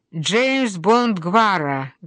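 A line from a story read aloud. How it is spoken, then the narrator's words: Mocking, almost hostile. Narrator (Russian): говорит Оливер насмешливо, почти с неприязнью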